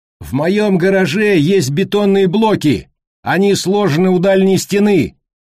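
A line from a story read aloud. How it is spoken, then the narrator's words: Shouting. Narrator (Russian): кричал Колли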